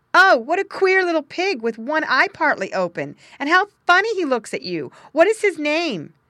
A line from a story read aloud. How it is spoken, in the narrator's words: one boy called out